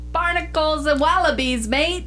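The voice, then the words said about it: Put-on Australian accent. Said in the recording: “That's the best Australian accent I could do.”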